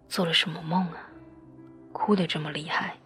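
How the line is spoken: Sighing. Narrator (Chinese): 哲野叹息着说着

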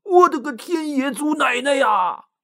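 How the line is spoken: Frightened shout. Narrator (Chinese): 吓得大喊一声

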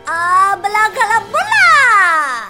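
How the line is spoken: Shouting. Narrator (Chinese): 温妮 大喊一声

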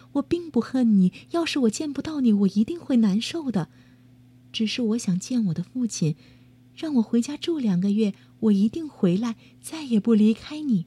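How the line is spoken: Gentle. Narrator (Chinese): 美人温柔地说

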